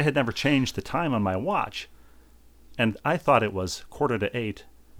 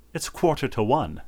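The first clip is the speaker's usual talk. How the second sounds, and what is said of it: Weak attempt at English accent. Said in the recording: “I can't do the English accent well.”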